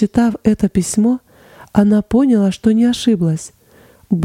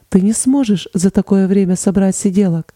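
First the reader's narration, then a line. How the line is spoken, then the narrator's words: Plain. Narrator (Russian): сказала Лиз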